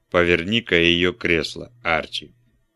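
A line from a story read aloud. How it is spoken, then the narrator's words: Sigh then speech. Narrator (Russian): Какое-то время Вульф молчал, затем вздохнул и сказал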